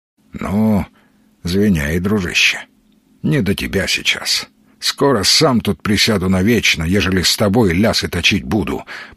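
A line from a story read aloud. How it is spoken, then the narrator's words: Grumbled. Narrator (Russian): проворчал Сергей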